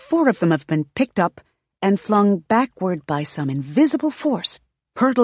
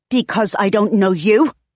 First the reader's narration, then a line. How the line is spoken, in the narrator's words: Aislinn snaps